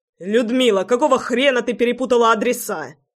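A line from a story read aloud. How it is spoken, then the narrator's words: Barked. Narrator (Russian): рявкнул я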